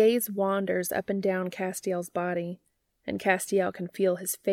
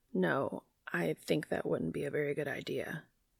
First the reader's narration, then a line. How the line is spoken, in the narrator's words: he manages to mutter